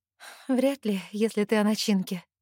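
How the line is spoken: Sad, smiling. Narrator (Russian): грустно улыбаюсь я

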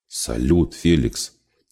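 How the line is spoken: Tragic whisper. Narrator (Russian): трагическим шепотом произнес Ян

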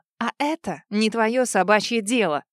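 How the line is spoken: Rude retort. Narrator (Russian): Грубо выдала я

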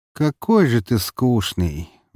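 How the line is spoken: Sigh, normal voice. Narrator (Russian): вздохнул он, заговорив обычным голосом

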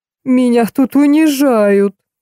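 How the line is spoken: Sobbing. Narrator (Russian): всхлипнул Карлуша

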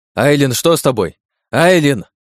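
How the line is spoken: Shouting. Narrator (Russian): кричал я

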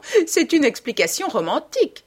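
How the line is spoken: Hostess exclaiming, laughing. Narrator (French): s'exclama en riant l'hôtesse

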